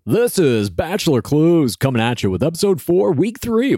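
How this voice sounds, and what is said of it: Professional sports announcer voice. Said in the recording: “That was my professional sports announcer voice”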